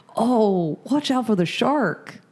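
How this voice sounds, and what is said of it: Weak put-on California accent. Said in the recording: “It's not a great California accent. ... you can't even approximate. ... No, it's almost like you're doing like a middle American California.”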